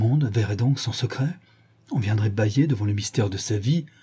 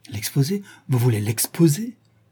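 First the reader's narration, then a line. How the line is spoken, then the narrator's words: Frightened exclamation. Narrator (French): s'exclama Dorian Gray envahi d'un étrange effroi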